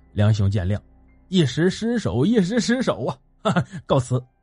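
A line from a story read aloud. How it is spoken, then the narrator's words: Sheepish laugh. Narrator (Chinese): 那余温讪笑道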